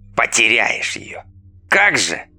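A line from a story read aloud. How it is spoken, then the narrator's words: Scout snorting. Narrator (Russian): фыркнул скаут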